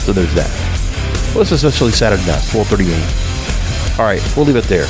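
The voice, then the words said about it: Stuffy, congested voice. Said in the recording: “you can hear my voice is a little bit stuffy ... a little bit of a relapse of the allergies”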